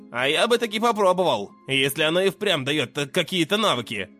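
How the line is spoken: Snort. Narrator (Russian): хмыкнул Мерлин

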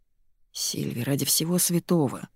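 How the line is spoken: Mutter. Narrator (Russian): бормочет Дэн так, будто игра с чистого листа

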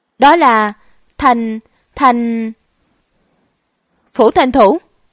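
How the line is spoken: Nervous gulp, stammering. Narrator (Vietnamese): Đội trưởng rốt cuộc nuốt một ngụm nước miếng, lắp bắp nói

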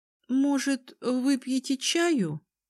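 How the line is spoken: Uncertain offer. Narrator (Russian): неуверенно предложила

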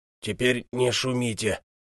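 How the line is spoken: Gruff mutter. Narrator (Russian): буркнул

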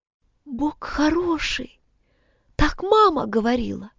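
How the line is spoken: Whisper. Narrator (Russian): прошептала она

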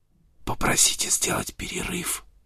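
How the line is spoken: Whisper. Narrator (Russian): прошептал Сент-Винсент

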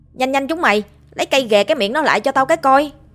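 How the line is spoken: Shouting. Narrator (Vietnamese): Phát hét lên

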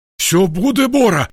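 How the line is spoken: Frightened reassurance, small man. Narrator (Russian): испуганно заверил мужичок

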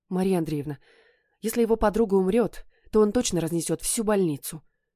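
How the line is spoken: Frightened speech. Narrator (Russian): испуганно проговорила она

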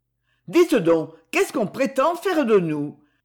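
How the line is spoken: Exclaiming. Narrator (French): s'écria Edmé

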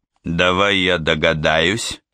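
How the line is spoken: Grumbled. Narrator (Russian): буркнул Бэкстрём

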